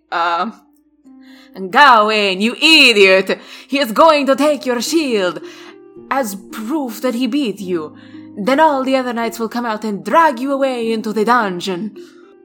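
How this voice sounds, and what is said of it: Bad put-on Italian accent, Dracula-like. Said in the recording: “bad Italian accent ... That was more Dracula, but I still liked it ... Italian is not my greatest accent”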